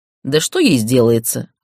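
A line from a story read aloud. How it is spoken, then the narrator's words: Snort. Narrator (Russian): фыркнул Иридан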